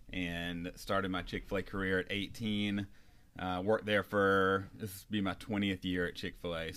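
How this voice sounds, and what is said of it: North Carolina Southern accent. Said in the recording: “the accent probably gave it away, but I'm from North Carolina”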